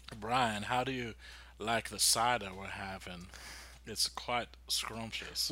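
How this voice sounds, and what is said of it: Put-on cheesy Southern accent. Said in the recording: “talking to me in that accent ... these cheesy accents ... I love doing accents ... this is how many Southern?”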